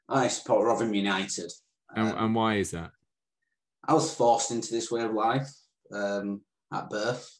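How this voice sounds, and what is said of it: Northern English accent. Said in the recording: “I'm a Northern boy. And if you can't tell by the accent”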